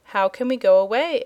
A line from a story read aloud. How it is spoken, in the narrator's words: asked Dorothy